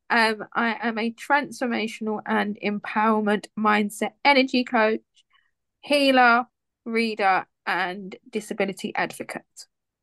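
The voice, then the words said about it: British English accent. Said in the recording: “I'm from the UK, if you can't tell by my accent.”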